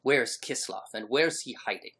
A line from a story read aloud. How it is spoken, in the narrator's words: barks the traveler